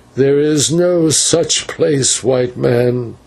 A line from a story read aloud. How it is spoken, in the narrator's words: he answered sullenly